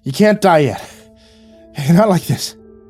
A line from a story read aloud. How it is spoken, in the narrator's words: gasped